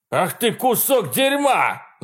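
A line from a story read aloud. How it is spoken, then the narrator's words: Man shouting. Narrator (Russian): закричал мужчина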